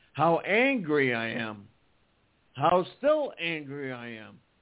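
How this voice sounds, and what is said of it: Shaking, angry voice. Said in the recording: “I'm shaking, actually. My voice is shaking. I'm having a hard time speaking.”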